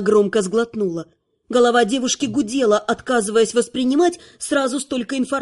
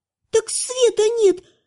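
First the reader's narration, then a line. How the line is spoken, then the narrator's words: Confused squeak. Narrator (Russian): растерянно пискнула Лана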